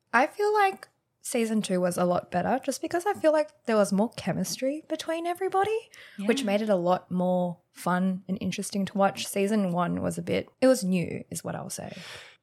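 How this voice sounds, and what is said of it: Crisp, clear podcast-style voice. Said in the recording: “You have a crisp podcast voice.”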